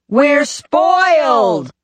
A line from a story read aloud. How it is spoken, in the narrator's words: we shouted in unison